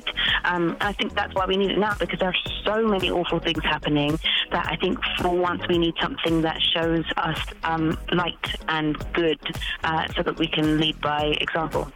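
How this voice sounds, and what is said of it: British accent. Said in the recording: “people are questioning you being a British actress. As you can tell, she has her accent.”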